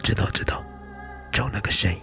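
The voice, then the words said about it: Breathy whisper. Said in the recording (Chinese): “用气音交谈”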